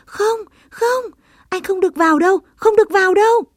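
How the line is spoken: Frightened group cry. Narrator (Vietnamese): tất cả cùng sợ hãi kêu lên

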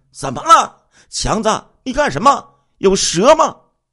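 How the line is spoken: Boys shouting loudly. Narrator (Chinese): 后面两个少年 大声的喊道

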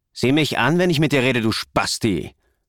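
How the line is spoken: Hissing boy. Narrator (German): zischte der Junge

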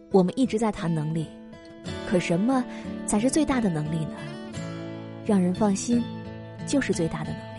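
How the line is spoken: Sighing. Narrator (Chinese): 主管叹了一口气说

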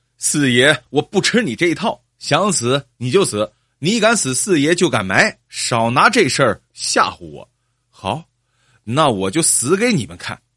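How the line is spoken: Loud and defiant. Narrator (Chinese): 李四嘴硬，大声道

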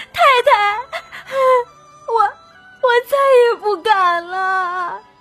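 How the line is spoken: Crying, pleading. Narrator (Chinese): 金钏 哭了起来

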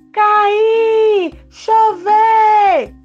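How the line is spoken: Shouting. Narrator (Portuguese): deveria gritar

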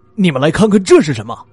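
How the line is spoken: Shouting. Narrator (Chinese): 风本泰喊道

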